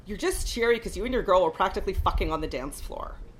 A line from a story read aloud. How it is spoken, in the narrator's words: snarled my ninth brother